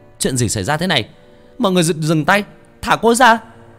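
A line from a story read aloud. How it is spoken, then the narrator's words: Boy's shout. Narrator (Vietnamese): tiếng hét của thằng Nguyên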